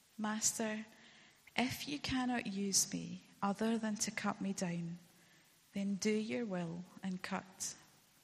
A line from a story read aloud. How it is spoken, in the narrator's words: There was a whisper